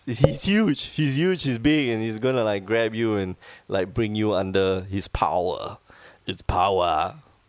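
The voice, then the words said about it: Poor imitation of another person's voice. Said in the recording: “That was a very bad Arnold impersonation ... An Arnold impersonation.”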